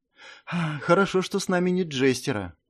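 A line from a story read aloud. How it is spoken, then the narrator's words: Sighing. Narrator (Russian): вздохнула девушка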